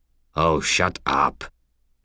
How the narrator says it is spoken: Sharp said

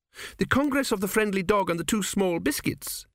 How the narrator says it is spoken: she exclaimed

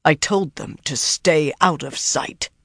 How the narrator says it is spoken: Rand said in a harsh voice

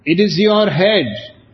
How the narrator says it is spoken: shouts doctor

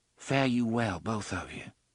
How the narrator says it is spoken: she said softly

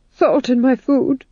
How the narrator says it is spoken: said the Duke, nervously

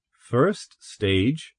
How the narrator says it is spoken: Taylor repeated nervously

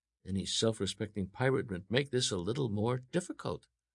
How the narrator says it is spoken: Alan murmured

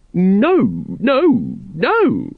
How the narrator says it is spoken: squeaked Once

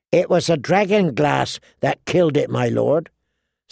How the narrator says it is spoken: Sam explained feebly

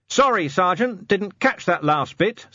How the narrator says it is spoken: said Vimes loudly

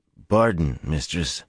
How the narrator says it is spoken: he said in the coarse voice he had adopted for Newly

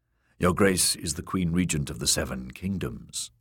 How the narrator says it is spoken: the man said

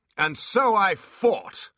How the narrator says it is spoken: shouted Abbott

